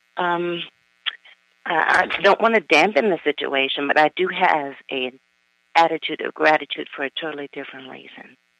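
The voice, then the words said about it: Slightly raspy voice. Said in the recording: “A little raspy”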